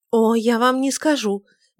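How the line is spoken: Heated, tearful, forced smile. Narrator (Russian): горячо сказала Тельма, вытирая глаза и пытаясь выдавить из себя улыбку

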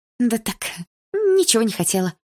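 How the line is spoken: Sweet voice. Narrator (Russian): милым голосом произнесла я

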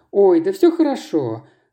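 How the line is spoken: Laughing. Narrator (Russian): рассмеялась Марина

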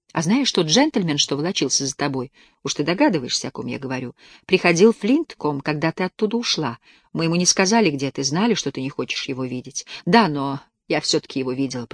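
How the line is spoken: Whisper. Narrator (Russian): прошептала Тесс

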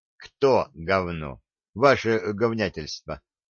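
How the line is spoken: Gloomy question. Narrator (Russian): мрачно переспросил Беломор

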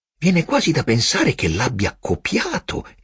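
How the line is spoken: Exclaiming. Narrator (Italian): esclamò

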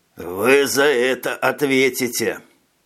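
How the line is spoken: Grumbled. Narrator (Russian): пробурчал Дэн

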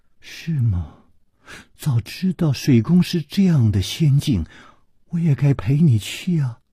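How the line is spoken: Soft sigh. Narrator (Chinese): 李红秀轻轻地叹了一口气说

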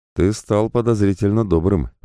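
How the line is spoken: Grumble. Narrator (Russian): проворчал я

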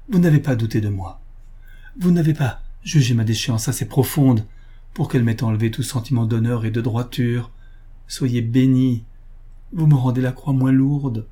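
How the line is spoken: Exclaiming. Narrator (French): s'écria-t-elle

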